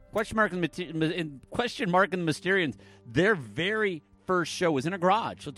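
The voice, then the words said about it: Michigan accent. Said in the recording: “That's where this weird accent comes from. It's not like a weird Canadian accent or a weird Ohio accent, no. Or even a weird upstate New York accent.”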